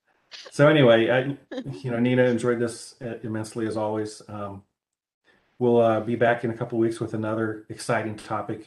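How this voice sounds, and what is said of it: Midwestern American accent. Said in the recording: “my Midwestern accent”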